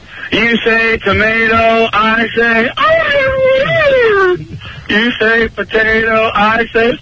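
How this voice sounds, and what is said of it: Bad Helen Keller impression. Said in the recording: “it's a bad Helen Keller impression.”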